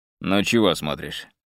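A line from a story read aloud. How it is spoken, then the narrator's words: Man's rude question. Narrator (Russian): спросил мужчина грубо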